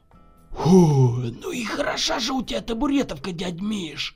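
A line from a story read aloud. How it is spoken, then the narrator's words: Loud exhale. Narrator (Russian): шумно выдохнул Николай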